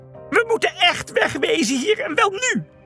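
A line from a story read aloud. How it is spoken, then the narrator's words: Shouting. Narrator (Dutch): Felix sprong wild op en neer en schreeuwde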